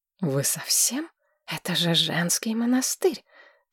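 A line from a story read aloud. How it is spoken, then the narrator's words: Hissed. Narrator (Russian): прошипел, наконец, Дер Норвий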